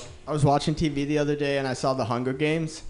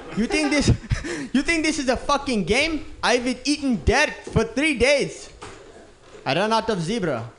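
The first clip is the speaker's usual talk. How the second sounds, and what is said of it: Put-on African accent. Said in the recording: “Isn't that slightly offensive to Africans? ... I messed up the accent”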